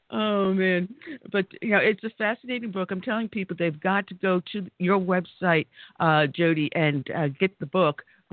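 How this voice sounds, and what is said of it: New York accent. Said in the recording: “You definitely have a New York accent”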